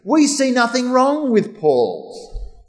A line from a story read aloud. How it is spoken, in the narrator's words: they shouted